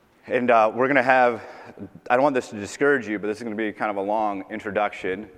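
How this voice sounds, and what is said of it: Tired, worn voice. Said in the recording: “my voice is a little bit tired, probably from the, the conference and yelling at them”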